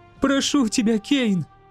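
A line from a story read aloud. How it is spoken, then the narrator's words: Sobbing. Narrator (Russian): всхлипывала она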